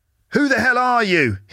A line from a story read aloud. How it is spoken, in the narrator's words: he shouts